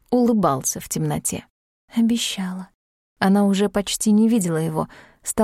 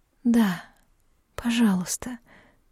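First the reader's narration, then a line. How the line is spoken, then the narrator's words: Breathy exhale. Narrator (Russian): выдохнула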